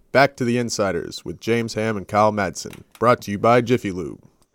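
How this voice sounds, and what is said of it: Radio broadcast announcer voice. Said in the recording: “That's his radio voice, his broadcast voice.”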